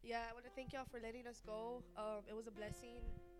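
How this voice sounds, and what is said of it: Sick-sounding voice. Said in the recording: “I sound sick.”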